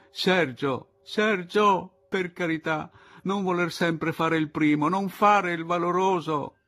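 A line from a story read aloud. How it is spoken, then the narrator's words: Shouted. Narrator (Italian): lei gli gridò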